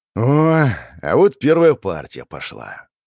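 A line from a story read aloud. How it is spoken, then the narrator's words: Weary sigh. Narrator (Russian): устало вздохнул я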